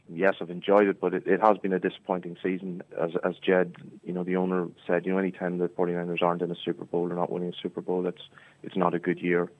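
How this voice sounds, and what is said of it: Irish Monaghan accent. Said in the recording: “come with a Monaghan accent... You haven't got an American twang just yet?... I'm trying to keep my Scotstown, my Monaghan accent”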